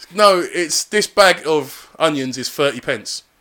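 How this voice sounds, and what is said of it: Put-on South Asian accent. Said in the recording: “I'm not gonna do the Asian accent because people will take offence to it. So I'm gonna do it.”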